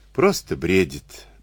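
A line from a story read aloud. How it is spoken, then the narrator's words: Tired faintly smiling reply. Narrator (Russian): устало отозвалась женщина, едва улыбнувшись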